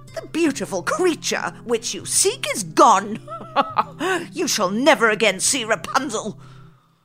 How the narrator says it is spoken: Gothel cackled

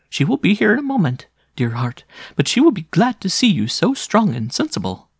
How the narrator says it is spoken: The woman smiled cheerfully and answered

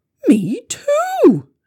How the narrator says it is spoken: exclaimed

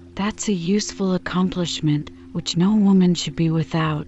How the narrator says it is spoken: said Mrs

